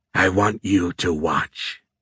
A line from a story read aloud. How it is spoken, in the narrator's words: Azrael growled